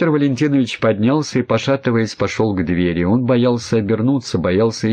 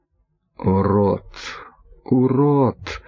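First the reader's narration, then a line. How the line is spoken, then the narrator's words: Whispering. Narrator (Russian): шептал он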